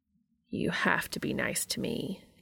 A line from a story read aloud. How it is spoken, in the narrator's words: Cass says very solemnly